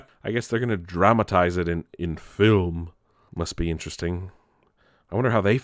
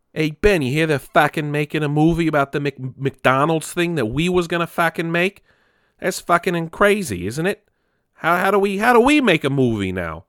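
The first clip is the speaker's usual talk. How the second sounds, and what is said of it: Poor put-on Boston accent. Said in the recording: “It was not a good Boston accent.”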